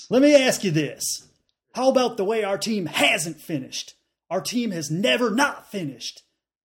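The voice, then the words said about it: Put-on Southern American accent. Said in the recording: “Should I do this in a Southern accent? ... I don't know if I can do a good Southern accent.”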